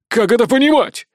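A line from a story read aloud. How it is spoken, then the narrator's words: Loud bark. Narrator (Russian): гаркнул Николай VI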